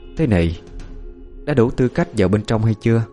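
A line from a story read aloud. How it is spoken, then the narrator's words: Cold female voice. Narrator (Vietnamese): Nàng lạnh lùng nói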